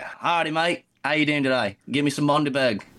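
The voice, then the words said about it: Poor put-on Australian accent. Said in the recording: “Australian accent ... It's bad”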